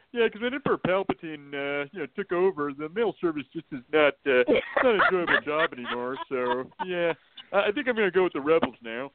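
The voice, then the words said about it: Impression of John Ratzenberger. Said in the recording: “that's Jim Ratzenberger ... John Ratzenberger ... that's the best impression I can do”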